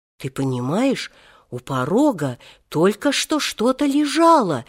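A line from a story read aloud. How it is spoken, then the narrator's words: Frightened report. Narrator (Russian): испуганно сообщила она прибежавшему на шум Алексею Алексеевичу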